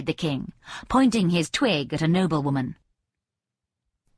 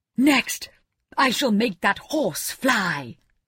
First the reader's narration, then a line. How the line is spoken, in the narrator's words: cried the king